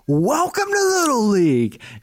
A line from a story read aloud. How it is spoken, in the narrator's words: The umpire yells